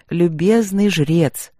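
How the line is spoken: Bored calling tone. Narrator (Russian): скучающим тоном позвала я

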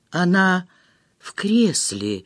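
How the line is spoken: Wooden flat voice. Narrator (Russian): деревянным голосом произнесла

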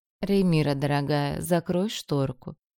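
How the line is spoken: Lazy command. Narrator (Russian): лениво приказала госпожа Карисер

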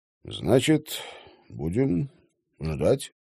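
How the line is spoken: Embarrassed mumble. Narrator (Russian): смущенно пробормотал Стрелок

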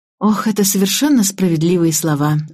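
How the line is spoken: Sighing. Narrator (Russian): вздохнула я

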